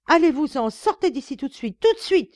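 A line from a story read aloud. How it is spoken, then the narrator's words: Furious screaming. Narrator (French): hurlait madame, qui menaçait de me déchirer le visage avec ses ongles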